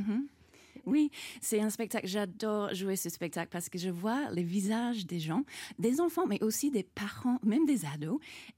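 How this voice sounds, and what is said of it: Australian accent speaking French. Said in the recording (French): “magicienne australienne ... Et qui a une très jolie accent ... je ne peux pas m'empêcher de parler comme ça”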